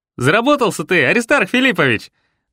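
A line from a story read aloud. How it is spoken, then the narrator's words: Loud joyful proclamation. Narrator (Russian): громко и радостно провозгласил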